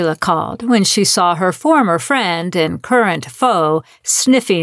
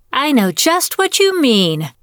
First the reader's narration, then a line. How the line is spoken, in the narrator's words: Sheila exclaimed, as though Gail had completed a coherent thought